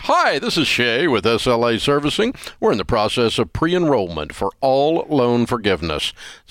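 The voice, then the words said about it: Put-on smooth radio announcer voice. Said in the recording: “radio voice”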